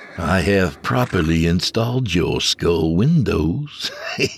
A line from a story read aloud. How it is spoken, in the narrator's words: the voice said with a chuckle